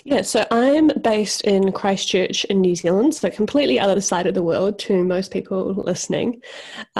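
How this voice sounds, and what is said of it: New Zealand accent. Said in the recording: “I hear your accent”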